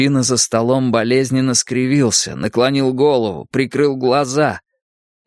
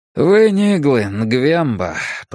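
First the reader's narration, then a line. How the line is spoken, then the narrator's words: Tired voice. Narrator (Russian): произнес мужчина усталым голосом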